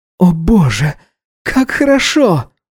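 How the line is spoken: Moaning. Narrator (Russian): стонал он, приходя в себя

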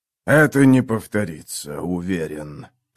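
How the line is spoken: Hiss. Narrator (Russian): прошипел бог на престоле

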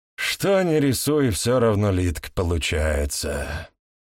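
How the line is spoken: Sighed. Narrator (Russian): вздохнул Виктор Сергеевич

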